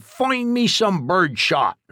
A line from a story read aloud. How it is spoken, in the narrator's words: ran out the door yelling